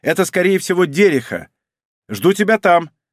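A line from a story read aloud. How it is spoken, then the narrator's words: Woman shouting from corridor. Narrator (Russian): уже из коридора прокричала женщина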